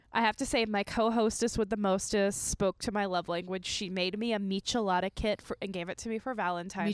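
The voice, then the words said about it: Congested, sniffly sick voice. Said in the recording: “I am a little sick... She's got a little bit of a sniff... A little sniffle... congestion... So I sound a little weird”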